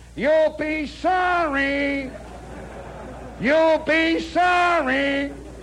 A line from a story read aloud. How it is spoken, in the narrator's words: they holler out of the barracks